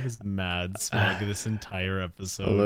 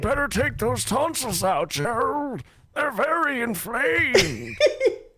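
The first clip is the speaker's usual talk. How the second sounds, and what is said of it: Stereotypical old man voice. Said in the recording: “stereotype old man voice.”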